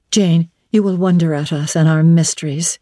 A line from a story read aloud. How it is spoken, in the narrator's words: she said